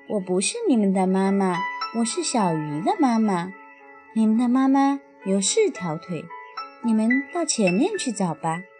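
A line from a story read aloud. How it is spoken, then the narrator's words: Laughing. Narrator (Chinese): 大鱼笑着说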